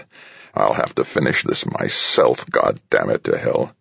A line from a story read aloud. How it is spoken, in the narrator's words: With a growl that was almost feral, the head of surgery said